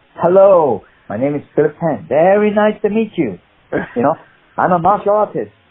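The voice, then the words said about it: Put-on Chinese accent. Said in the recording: “do the audition with a Chinese accent.”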